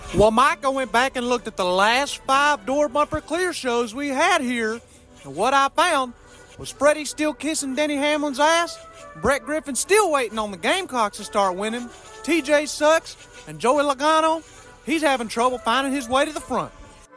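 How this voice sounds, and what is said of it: Good Larry Mack impersonation. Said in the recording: “That's a pretty good Larry Mack impersonation ... That actually was pretty good Larry Mack.”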